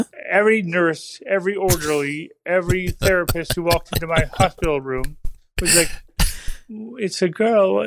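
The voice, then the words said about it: Impaired, odd-sounding voice. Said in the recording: “As you can tell, my voice is a little fucked up. ... for right now, I sound weird.”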